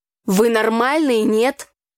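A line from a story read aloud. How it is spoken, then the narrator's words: Angry brother speaking. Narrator (Russian): сердито проговорил брат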